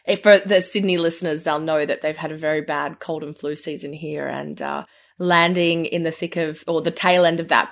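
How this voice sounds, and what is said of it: Australian accent. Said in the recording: “my Aussie accent it can be a little thicker sometimes when I'm here”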